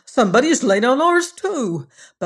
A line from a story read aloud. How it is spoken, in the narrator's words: The others cried when they saw their beds